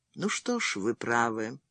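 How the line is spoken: Quiet, almost inaudible. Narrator (Russian): сказала она, наконец, тихо, почти неслышно

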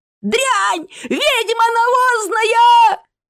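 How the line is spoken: Yelling. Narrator (Russian): заорал Свилк

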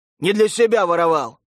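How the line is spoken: Snapping, barking. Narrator (Russian): огрызнулся Хастик и рявкнул

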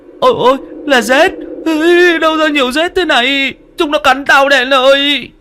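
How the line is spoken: Terrified shriek. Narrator (Vietnamese): rú lên một tiếng

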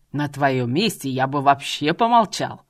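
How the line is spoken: Loud bellow. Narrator (Russian): Что из мочи гаркнул мужчина

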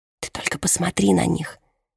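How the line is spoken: Barely audible. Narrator (Russian): едва слышно произносит Донателла

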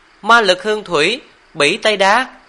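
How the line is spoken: Excited shrieking. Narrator (Vietnamese): hưng phấn kêu lên thất thanh

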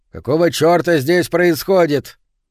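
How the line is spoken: Rough interruption. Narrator (Russian): сержант грубо прервал ее

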